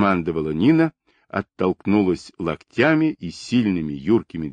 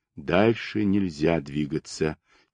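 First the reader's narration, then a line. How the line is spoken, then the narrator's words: Quiet speech. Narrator (Russian): тихо проговорил он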